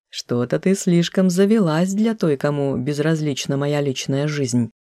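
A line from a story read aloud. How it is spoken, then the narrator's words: Pleased snort, calming himself. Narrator (Russian): хмыкнул вдруг как-то довольно, очевидно пытаясь успокоиться сам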